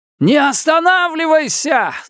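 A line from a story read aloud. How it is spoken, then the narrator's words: Yelled over loud noise. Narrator (Russian): заорал я, перекрикивая грохот голосов и топот ног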